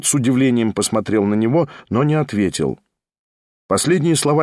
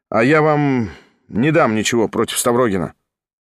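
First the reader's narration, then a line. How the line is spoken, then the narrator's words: Mumbling. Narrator (Russian): пробормотал вслед Кириллов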